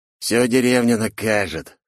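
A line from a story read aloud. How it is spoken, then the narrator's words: Angry, through gritted teeth. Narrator (Russian): сквозь зубы от злости ответил он мне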